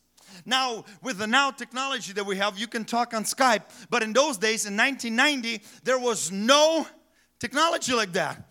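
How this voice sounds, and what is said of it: Foreign, non-native English accent. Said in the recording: “you probably can tell by my accent, we moved from another country to United States”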